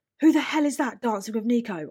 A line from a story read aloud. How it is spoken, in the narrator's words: I shouted over the music into Nikita's ear